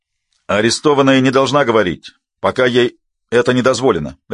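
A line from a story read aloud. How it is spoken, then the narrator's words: Barked. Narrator (Russian): рявкнул Илтис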